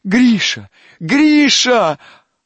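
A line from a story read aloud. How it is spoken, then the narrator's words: Shouting again. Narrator (Russian): опять закричала Катя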